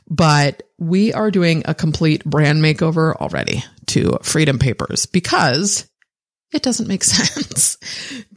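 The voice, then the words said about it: Hoarse, strained voice. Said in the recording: “Losing my voice today”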